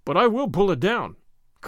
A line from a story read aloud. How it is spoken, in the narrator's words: cried Gordon